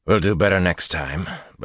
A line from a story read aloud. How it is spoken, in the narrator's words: Bashir murmured